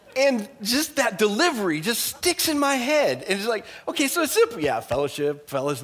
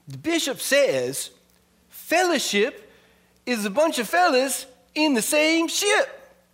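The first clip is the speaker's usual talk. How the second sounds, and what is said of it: Funny accent impression of a man. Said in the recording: “he had a, an interesting way of talking, kind of funny accent ... I'll try to do an impression”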